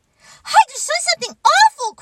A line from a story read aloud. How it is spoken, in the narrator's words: cried the mouse